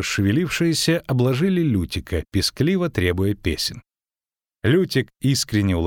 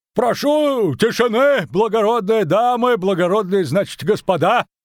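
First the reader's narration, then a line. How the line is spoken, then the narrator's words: Shouted. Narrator (Russian): крикнул Дроухард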